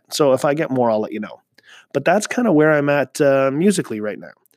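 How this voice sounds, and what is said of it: Talking really fast. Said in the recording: “you might notice I'm talking really fast.”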